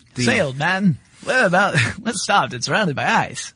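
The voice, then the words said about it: Put-on old-movie British accent. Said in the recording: “a British accent ... you've got the both that and the early 20th century movie”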